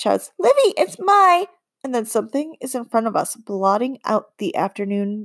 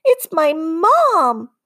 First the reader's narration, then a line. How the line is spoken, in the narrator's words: Bob shouts at me from her arms